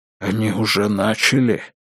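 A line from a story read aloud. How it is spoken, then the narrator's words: Whispering priest. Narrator (Russian): прошептал отец Патрик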